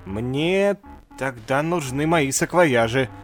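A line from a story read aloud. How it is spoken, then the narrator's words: Doctor muttering. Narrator (Russian): забормотал доктор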